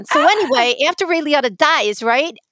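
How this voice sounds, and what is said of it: Put-on New York accent. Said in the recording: “So I'm going to talk in my New York accent.”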